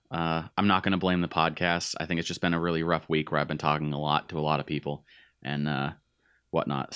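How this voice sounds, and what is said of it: Raspy voice, losing voice. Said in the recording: “raspy in this episode. I'm losing my voice a little bit”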